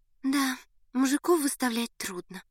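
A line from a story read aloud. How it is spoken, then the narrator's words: Sighed. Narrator (Russian): вздохнула Надя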